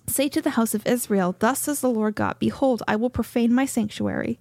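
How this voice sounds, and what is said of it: Reading while out of breath. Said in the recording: “I'm a little out of breath.”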